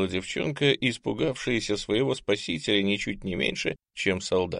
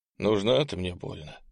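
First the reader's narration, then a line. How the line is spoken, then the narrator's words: Sighing. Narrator (Russian): вздохнул благородный Ант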